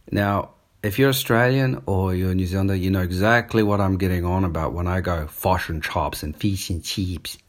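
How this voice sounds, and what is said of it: Australian-New Zealand accent. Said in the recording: “a mix of Australian grammar ... I grew up in New Zealand. So I've got a bit of sometimes a New Zealand accent coming through ... my speech swings between fish and chops to fish and chips”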